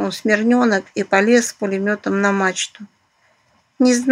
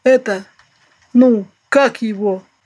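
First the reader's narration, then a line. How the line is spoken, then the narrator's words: Deep bass voice. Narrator (Russian): пробасил он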